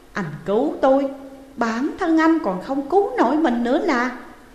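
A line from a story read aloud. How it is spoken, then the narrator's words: Cold. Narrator (Vietnamese): Tô Khôn lạnh lùng nói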